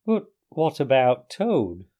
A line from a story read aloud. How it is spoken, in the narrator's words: asked the mole anxiously